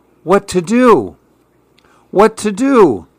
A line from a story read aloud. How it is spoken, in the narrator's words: the man cried